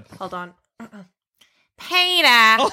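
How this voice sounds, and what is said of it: Cartoon character voice impression. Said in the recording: “I can do a really good Lois Griffin impression ... That was incredible ... Lois Griffin from Family Guy”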